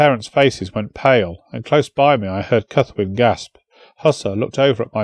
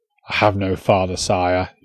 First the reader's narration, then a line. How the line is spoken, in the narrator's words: he said, his voice bitter